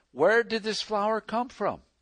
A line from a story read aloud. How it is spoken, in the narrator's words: Bates exclaimed